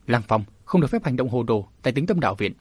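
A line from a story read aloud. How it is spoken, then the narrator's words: Soft sharp rebuke. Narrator (Vietnamese): lão đạo sĩ cụt tay khẽ gắt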